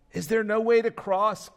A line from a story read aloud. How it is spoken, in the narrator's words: Christian called out to them